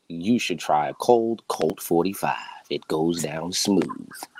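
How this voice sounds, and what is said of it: Deep smooth radio announcer voice. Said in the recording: “Deep radio voice ... sexy, smooth voice”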